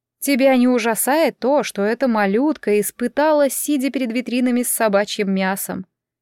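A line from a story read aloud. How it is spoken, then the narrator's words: Weak tearful indignant whisper. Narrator (Russian): Хвоён продолжала возмущаться и под конец слабым голосом, который могла расслышать только Инсо, прошептала со слезами на глазах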